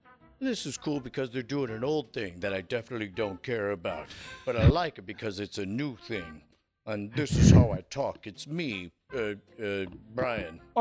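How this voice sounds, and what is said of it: Terrible impression of Brian Ibbott. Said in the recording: “That isn't your voice. That's a terrible impression.”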